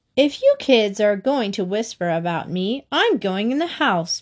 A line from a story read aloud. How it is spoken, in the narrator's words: Mary said angrily